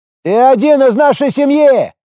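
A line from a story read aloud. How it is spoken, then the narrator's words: Sudden heated outburst. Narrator (Russian): Вдруг неожиданно запальчиво выкрикнул Эруэра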